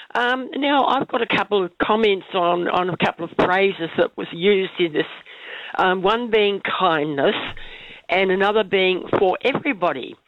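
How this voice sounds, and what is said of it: Strange, congested cold-affected voice. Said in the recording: “my voice sounds a bit strange, I've got a cold.”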